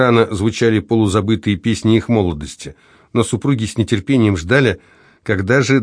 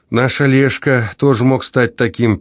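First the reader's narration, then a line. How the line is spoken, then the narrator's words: Sad sigh. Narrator (Russian): печально вздохнула Лидия Борисовна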